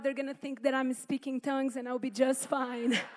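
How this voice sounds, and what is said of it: Strong Brazilian accent. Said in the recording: “When I get nervous, my accent gets really strong... I was born and raised in Brazil.”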